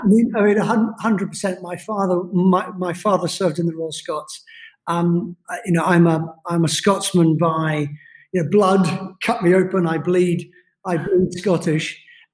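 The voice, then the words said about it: Neutral British accent. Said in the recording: “I have a neutral British accent because I grew up all over the world.”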